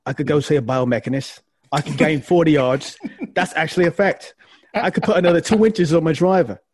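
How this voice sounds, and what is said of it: Put-on British accent imitating someone. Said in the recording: “great impersonation of Matthew ... he must be saying this in a British accent”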